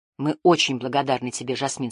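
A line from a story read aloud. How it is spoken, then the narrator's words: Plain. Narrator (Russian): сказал он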